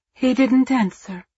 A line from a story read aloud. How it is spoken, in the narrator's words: said, her voice choked